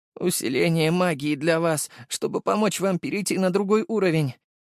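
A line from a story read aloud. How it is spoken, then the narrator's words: Weak voice. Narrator (Russian): произнес он слабым голосом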